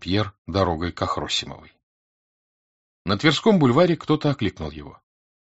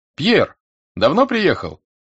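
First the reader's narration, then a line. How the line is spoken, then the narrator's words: Familiar voice shouting. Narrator (Russian): прокричал знакомый голос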